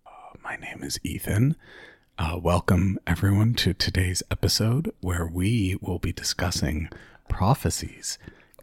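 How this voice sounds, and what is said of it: NPR-style public radio voice. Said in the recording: “why have you done full NPR voice?”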